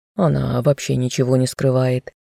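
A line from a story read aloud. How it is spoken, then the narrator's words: Muttered. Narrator (Russian): пробормотал ее помощник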